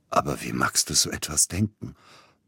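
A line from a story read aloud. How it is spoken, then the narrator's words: Hoarse. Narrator (German): brachte heiser hervor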